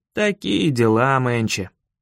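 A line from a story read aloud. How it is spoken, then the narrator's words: Grumbling. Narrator (Russian): проворчал я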